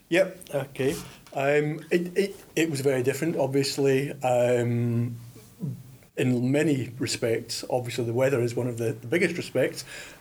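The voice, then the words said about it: Scottish accent. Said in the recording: “As people may have guessed from your accent, you weren't born in Australia. Can you tell us what it was like growing up in Scotland?”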